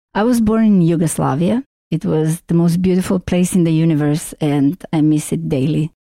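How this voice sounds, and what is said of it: Strong, hard-to-place foreign accent. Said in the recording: “I have a very strong accent, nobody can figure it out”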